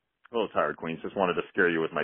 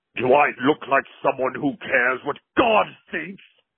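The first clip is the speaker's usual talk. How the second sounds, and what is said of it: Menacing Pinhead horror character voice. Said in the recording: “my Pinhead impersonation ... thank you for that impersonation ... It's actually pretty good.”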